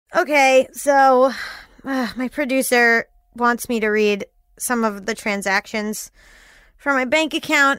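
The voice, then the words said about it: Flat, sarcastically unenthusiastic tone. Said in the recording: “As you can tell from my voice, I'm thrilled about it.”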